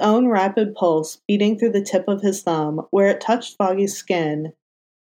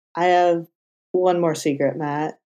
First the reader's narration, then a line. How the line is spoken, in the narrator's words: Foggy said, his voice coming out dry and scratchy